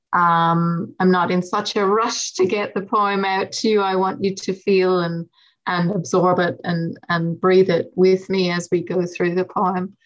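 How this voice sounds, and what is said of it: West of Ireland accent. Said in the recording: “my accent and my origins in the west of Ireland”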